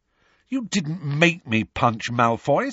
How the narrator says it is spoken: said Harry angrily

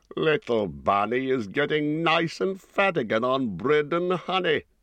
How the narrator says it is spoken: chuckled

